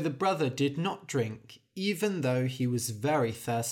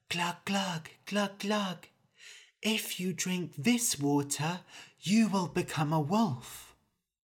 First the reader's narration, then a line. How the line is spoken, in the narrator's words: the stream whisper